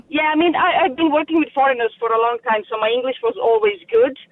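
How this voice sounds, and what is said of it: Non-native English accent. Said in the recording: “I have an accent. People know I'm a foreigner.”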